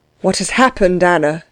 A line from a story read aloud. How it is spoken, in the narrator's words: asked the princess uneasily